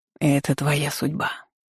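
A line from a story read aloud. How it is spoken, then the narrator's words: Whisper of the wind. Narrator (Russian): шепнул на ухо ветер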